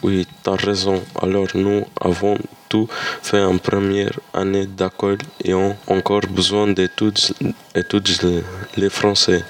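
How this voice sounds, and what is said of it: Non-native French accent. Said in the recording (French): “on a un drôle accent ... nous avons encore un joli accent”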